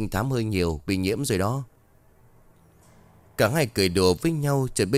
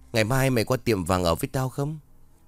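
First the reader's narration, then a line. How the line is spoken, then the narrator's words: Relieved, smiling question. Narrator (Vietnamese): Tiên mỉm cười có chút an tâm, rồi hỏi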